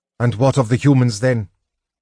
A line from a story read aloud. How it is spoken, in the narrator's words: Riverwind asked harshly